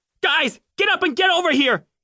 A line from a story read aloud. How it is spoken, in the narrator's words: he yelled